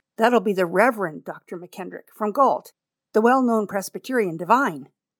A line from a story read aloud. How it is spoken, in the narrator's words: cried my old man